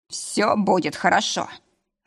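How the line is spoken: Muffled growl. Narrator (Russian): рыкнул в губы

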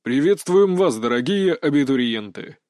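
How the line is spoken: Booming voice over crowd. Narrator (Russian): Зычным голосом произнес мужчина, перекрывая царящий в актовом зале гул

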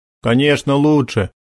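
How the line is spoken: Inner snort. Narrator (Russian): хмыкнул про себя Макар

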